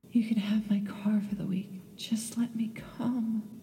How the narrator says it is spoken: pleaded

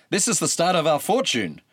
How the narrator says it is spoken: exclaimed Tydeus

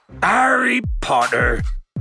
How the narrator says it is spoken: bellowed Hagrid

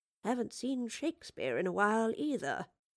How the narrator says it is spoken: muttered the Professor in a low voice

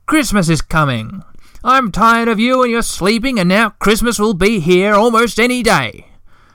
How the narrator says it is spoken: he shouted in a cross voice

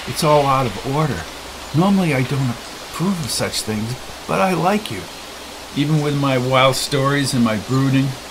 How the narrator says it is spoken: she laughed, and then she whispered

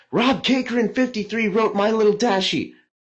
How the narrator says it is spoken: thousands of voices start screaming

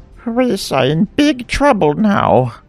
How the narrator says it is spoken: moaned

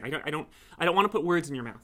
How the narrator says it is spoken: Sophie said hastily

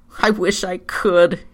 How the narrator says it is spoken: he wheezed

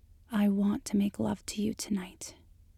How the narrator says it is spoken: she says softly

